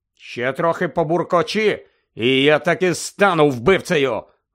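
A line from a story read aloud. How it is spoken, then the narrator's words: Irritated shout. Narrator (Ukrainian): роздратовано крикнув Сіріус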